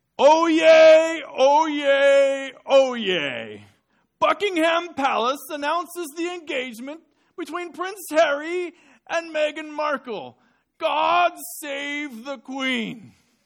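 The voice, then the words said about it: Town crier proclamation voice. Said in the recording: “I'm going to try to impersonate him for you this morning ... the town crier in front of Buckingham Palace”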